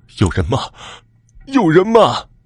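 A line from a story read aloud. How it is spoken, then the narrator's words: Hissing voice, empty corridor. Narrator (Chinese): 空空的楼道突然响起了嗤嗤的声音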